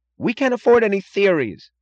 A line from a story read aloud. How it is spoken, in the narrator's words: cried Wesley Mooch